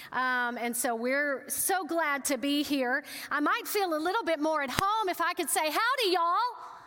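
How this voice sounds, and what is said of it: Texas accent. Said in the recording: “we get in trouble when we get excited with our Texas accent and we start talking a little fast”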